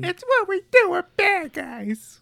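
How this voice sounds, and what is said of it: Harley Quinn character voice. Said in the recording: “my Harley Quinn impression ... I think it used to be better”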